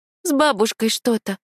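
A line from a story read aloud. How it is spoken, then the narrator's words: Forced out. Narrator (Russian): выдавила я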